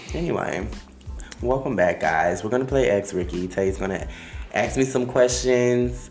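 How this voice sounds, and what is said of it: Miami accent. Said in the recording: “my Miami accent”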